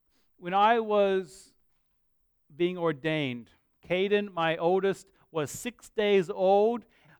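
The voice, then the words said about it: Mixed Australian-American accent. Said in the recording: “I actually am Australian. I just don't, I'm just confused in my accent.”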